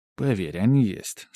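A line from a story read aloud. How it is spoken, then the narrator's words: Calm reply. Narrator (Russian): спокойно ответил я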